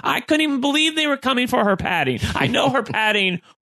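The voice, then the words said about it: Screaming, strained voice. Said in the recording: “I'm losing my voice. I'm screaming so loud.”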